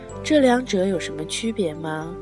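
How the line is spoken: Plain. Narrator (Chinese): 我问

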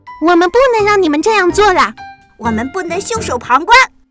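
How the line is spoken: Group shouting. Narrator (Chinese): 动物们喊道

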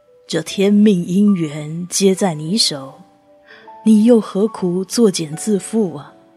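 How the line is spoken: Sighing. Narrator (Chinese): 师傅叹息

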